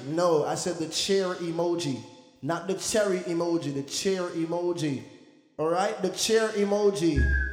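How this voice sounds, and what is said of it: Jamaican accent. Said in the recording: “because I was Jamaican, they was like, your accent, it sounded like cherry”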